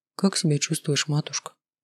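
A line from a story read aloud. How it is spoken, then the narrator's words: Quiet question. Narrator (Russian): тихо спросил Рыч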